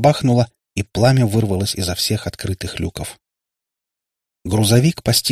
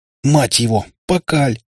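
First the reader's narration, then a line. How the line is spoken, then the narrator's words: Exclaiming. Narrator (Russian): воскликнул бледный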